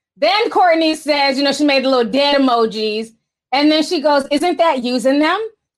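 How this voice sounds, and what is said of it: Put-on Valley Girl voice. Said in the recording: “I got my Valley Girl voice on”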